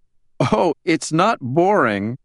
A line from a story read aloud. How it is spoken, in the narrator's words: Helen said, barely suppressing laughter